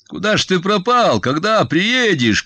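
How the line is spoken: Shouting. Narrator (Russian): кричал я

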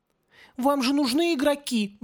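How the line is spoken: Pleading. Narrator (Russian): взмолился Малхой

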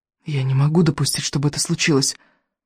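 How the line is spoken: Whisper. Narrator (Russian): прошептал Икинг

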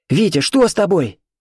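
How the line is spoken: Terrified shout. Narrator (Russian): в ужасе крикнула Катя

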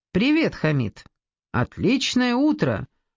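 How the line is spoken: Forced cheerfulness. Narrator (Russian): Наигранно бодро сказала я

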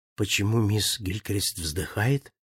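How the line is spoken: Whisper. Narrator (Russian): шепнул я

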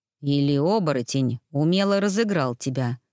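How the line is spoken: Grumbling. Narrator (Russian): проворчал Тони

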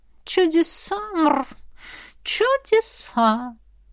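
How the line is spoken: Drawn-out, languid drawl. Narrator (Russian): протянула Тутти, потягиваясь

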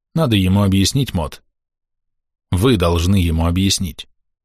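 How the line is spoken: Very calm. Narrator (Russian): Мерфи очень спокойно сказал

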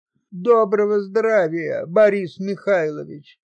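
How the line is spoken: Mumble with forced smile. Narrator (Russian): вымоченно улыбаясь, промямлил Семка

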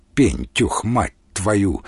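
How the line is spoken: Angry. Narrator (Russian): зло сказал

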